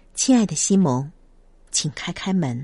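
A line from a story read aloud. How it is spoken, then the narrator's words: Soft-spoken. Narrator (Chinese): 轻声的说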